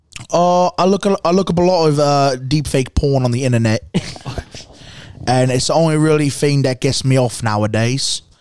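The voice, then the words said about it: Put-on British accent. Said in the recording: “British accent. ... Is that British or is that Australian?”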